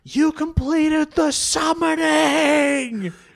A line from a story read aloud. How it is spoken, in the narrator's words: he grabs his head and he shouts